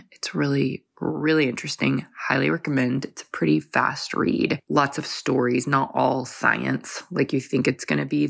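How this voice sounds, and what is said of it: Rough, congested voice. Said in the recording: “Excuse my voice. I have been getting over a head cold”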